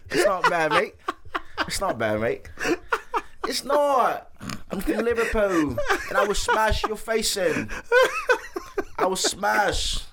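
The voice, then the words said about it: Put-on British Liverpool accent. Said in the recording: “Don't laugh at my British accent.”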